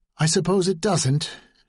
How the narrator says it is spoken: she said in a tight voice

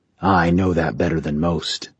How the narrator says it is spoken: the king said softly

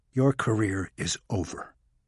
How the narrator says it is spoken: Maxwell said calmly

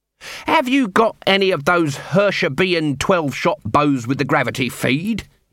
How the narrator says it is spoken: he snapped

